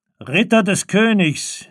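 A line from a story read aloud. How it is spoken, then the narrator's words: Resonant call. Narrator (German): rief mit tönender Stimme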